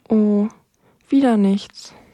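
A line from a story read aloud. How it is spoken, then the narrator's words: Sigh. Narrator (German): seufzte Rosi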